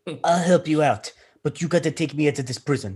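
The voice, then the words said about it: Poorly done put-on accent. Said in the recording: “That's not a good accent.”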